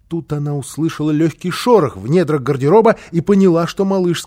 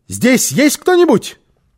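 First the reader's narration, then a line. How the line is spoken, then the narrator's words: Shout. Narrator (Russian): она крикнула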